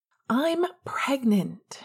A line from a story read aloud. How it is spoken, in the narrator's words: she answered indignantly